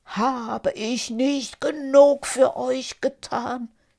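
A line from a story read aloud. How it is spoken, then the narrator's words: Pleading genie. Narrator (German): flehte der Dschinn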